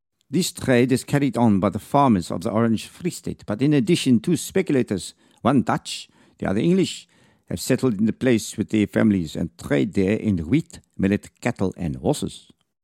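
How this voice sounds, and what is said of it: Vague put-on French accent. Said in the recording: “a vague attempt at a French accent.”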